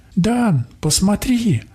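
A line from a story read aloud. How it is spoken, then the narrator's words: Young woman exclaiming. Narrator (Russian): воскликнула девушка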